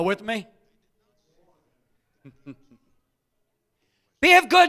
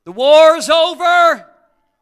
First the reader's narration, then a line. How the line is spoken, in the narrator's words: a messenger hollers out